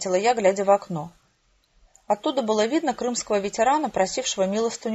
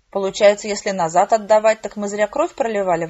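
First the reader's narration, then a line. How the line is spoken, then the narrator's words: Grumbling. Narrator (Russian): ворчал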